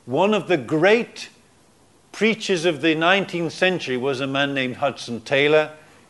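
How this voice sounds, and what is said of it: Northern English accent. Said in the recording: “He came from the north of England. I'm sure he had an accent a bit like mine, actually.”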